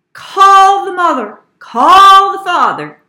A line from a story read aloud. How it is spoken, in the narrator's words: yelled the principal